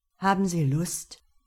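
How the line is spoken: Plain. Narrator (German): fragte dieser

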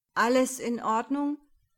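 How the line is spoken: Man calling out. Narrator (German): rief der Mann Clemens zu

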